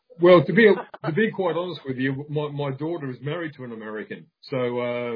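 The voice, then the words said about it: Accent like Ken Ham's. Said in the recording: “do we sound as funny to you as you sound to us ... Have you ever listened to Ken Ham? ... That's our accent.”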